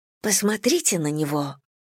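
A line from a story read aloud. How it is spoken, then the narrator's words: Whisper. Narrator (Russian): прошептала я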